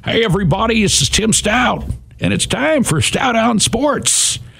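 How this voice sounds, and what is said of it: Imitates a sports radio host's voice. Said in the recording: “do an impression of Tim Stout ... No, that wasn't a bad impression, though.”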